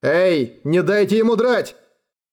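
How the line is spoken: Shout. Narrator (Russian): крикнул он Варденом

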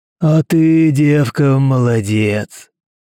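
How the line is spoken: Booming. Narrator (Russian): прогудел он

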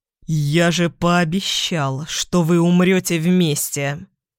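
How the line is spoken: Angry hiss. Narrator (Russian): Зло прошипел он

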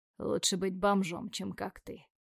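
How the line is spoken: Quiet but confident. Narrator (Russian): говорю тихо, но уверенно

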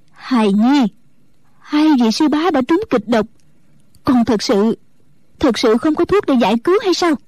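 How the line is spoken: Trembling question. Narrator (Vietnamese): Mẫn Như run run hỏi

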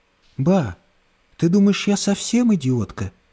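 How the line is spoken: Whispering. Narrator (Russian): прошептала

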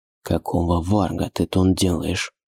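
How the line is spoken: Annoyed whisper. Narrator (Russian): Досадно прошептал он ей

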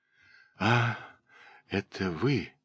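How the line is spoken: Whisper. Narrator (Russian): прошептала она

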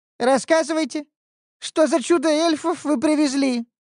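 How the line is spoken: Hysterical whiny squeak. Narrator (Russian): пискнул парень истерично капризным голосом

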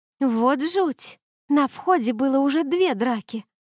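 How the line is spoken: Exclaimed. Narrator (Russian): округлив глаза, воскликнула Блия

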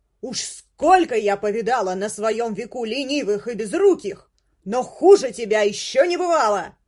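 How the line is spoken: Fat cook's yelling. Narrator (Russian): орала толстуха-повариха, чтобы Мигири Соу расслышала ее слова

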